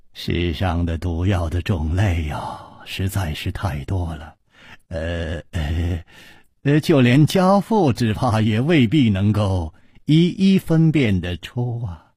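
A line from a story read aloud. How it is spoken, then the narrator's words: Sighing. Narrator (Chinese): 李玉涵叹了一口气说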